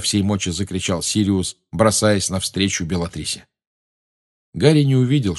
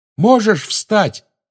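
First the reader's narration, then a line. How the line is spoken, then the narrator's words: Shout into ear. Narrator (Russian): крикнул он в ухо товарищу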